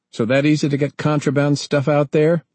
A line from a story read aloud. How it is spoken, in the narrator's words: Ernie queried sharply